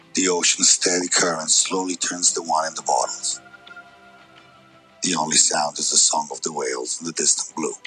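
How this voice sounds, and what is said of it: Put-on accent. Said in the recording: “What accent was that?”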